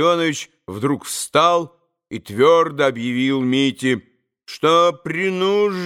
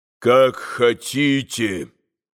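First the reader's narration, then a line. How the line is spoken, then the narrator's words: Gloomy. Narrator (Russian): мрачно подчинился Митя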